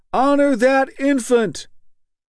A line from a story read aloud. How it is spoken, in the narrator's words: Somebody shouted out